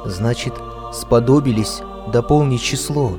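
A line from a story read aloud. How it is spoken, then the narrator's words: Whisper. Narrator (Russian): прошептал Аким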